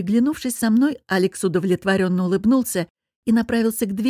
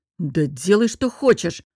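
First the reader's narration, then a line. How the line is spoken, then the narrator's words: Irritable snap. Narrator (Russian): огрызнулся он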